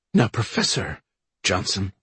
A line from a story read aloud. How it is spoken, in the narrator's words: he said quietly